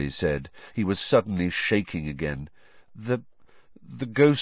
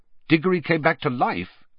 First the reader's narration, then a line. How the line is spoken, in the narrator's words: said Sirius sharply